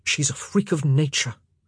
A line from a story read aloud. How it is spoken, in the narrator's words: Benedict muttered